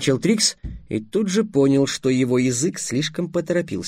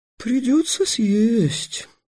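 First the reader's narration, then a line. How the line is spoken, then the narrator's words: Sighing. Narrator (Russian): вздохнула драконесса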